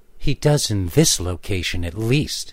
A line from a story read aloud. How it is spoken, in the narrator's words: answered